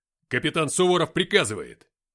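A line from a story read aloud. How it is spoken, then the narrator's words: Barked. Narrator (Russian): рявкнул я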